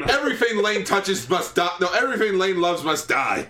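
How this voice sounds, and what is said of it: Shouting. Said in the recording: “I'm shouting... you're just shout today”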